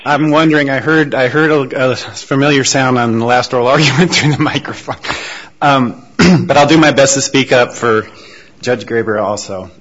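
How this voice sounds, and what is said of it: Sick, strained voice. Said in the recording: “apologize for my voice, and if I happen to cough, I've been fighting a bug for a couple of weeks now”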